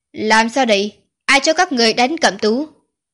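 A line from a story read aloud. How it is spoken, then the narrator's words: Cold, pained shout. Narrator (Vietnamese): Hoa Duẩn Hòa đau lòng lạnh lùng quát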